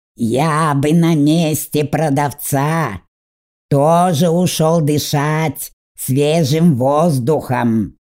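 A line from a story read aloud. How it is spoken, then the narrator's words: Drawled. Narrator (Russian): протянул Фаб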